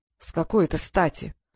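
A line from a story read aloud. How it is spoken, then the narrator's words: Through gritted teeth. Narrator (Russian): процедил Фэш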